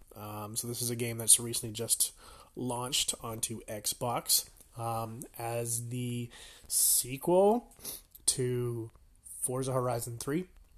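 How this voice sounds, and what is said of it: Slightly sick, off-sounding voice. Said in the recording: “You can probably tell I'm a little sick. My voice is a little off”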